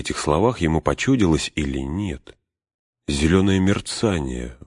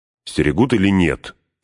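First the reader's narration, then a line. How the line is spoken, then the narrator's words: Stern question. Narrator (Russian): строго спросил Фродо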